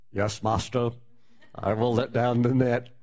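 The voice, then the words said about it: Mock pious, religious-sounding voice. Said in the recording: “puts on his best religious impression.”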